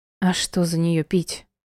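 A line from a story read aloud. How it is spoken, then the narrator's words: Gloomy. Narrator (Russian): ответила я мрачно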